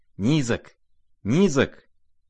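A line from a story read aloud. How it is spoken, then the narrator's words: Mutter. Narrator (Russian): забормотал Лебедев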